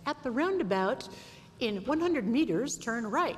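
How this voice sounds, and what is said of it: Imitated English-accented GPS voice. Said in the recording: “she'd be saying, at the roundabout, in an English accent”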